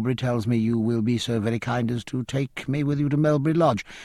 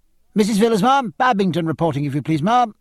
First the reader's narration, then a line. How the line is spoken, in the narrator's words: a figure in a three-caped coat that piped